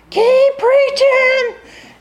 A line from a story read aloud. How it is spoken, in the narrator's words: her little voice screaming